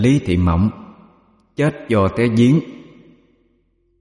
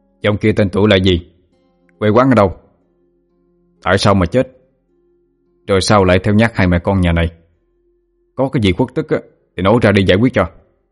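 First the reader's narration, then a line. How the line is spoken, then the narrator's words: Raised voice, stern questioning. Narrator (Vietnamese): Anh Toàn bây giờ mới tăng hắn giọng, rồi nghiêm nghị hỏi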